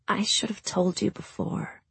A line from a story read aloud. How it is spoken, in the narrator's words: Leonie said softly